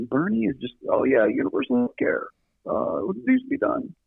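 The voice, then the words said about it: Imitates another person's voice. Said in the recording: “That's my terrible Bernie impression.”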